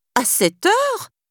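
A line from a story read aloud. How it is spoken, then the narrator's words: Exclaimed. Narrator (French): s'exclama Nanny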